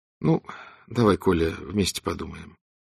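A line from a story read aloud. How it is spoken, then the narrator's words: Quiet speech. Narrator (Russian): так же тихо говорила Донцова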